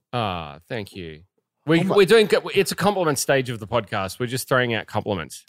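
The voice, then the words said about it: Speaker with a noticeable accent. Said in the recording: “I love your accent too.”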